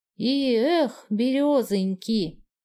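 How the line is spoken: Tender, soft singsong. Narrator (Russian): Любовно протянул он нараспев, и тихая песня

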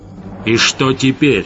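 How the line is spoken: Barking. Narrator (Russian): рявкнул Гессер

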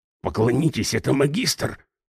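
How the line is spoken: Whisper. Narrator (Russian): прошептал

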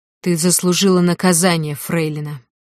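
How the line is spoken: Growl. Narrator (Russian): прорычал

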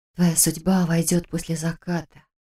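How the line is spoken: Whispered. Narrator (Russian): прошептала я девочке

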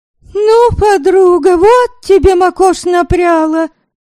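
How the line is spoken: Shouting. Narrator (Russian): Закричала она

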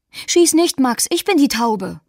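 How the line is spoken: Calls out. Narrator (German): ruft

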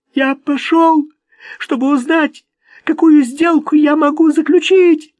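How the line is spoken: Sobbing. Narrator (Russian): зарыдал Плакса

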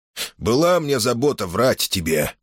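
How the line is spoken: Weary. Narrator (Russian): проговорил он устало

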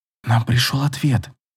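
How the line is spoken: Whispered. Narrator (Russian): шепнула

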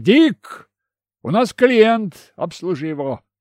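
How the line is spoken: Old man shouting. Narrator (Russian): старый Сэм крикнул внутрь бокса

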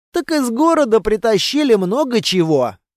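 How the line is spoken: Snorting. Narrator (Russian): хмыкнул Кейко

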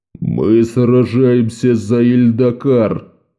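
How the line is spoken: Growl. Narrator (Russian): прорычал матерый воин

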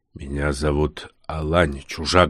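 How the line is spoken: Muffled, fearful yet resolute. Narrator (Russian): глухо проговорил старшина

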